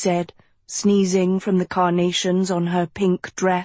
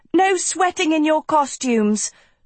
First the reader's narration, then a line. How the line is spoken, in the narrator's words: Sophie barked